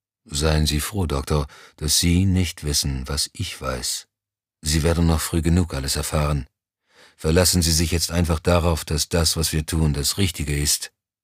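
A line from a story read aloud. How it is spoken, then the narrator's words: Toneless. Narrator (German): erklärte tonlos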